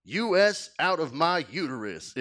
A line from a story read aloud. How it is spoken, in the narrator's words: it said